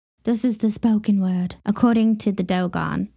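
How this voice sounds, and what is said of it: Put-on accent. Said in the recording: “Why did I say that with an accent?”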